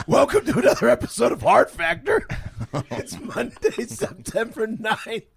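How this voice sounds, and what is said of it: Rough, worn-out voice. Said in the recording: “You sound terrible. ... You ain't going to find your voice in this garage.”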